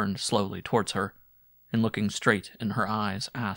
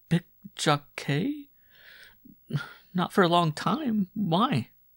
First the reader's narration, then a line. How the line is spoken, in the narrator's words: The abrupt question seemed to transfix her, and she stammered